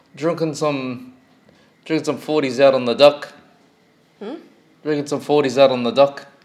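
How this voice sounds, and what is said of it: Put-on New Zealand accent. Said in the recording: “in their Kiwi accent”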